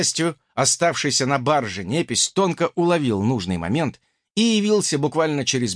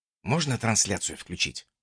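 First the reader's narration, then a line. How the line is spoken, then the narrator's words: Whisper in the ear. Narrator (Russian): шепнул я ультиматору на ухо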